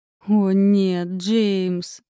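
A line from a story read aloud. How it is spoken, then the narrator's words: Drawn out. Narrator (Russian): протянула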